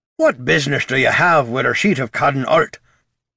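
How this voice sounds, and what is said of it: Character voice with thick brogue. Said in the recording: “a stout lad with thick braids in his beard and a thicker brogue in his speech”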